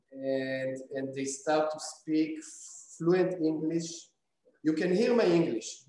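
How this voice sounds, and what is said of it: Strong non-native English accent. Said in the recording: “My accent is terrible ... They're laughing on my English ... how come your English is so bad?”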